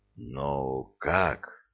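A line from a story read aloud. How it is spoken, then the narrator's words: Strained, forced out. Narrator (Russian): с трудом выдавил из себя кто-то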